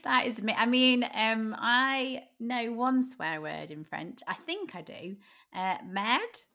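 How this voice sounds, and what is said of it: British English accent. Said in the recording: “I just sound very British and I'm butchering it”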